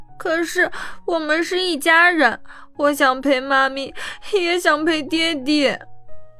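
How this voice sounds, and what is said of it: Choked-up tearful child voice. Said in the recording (Chinese): “哽咽的声音说”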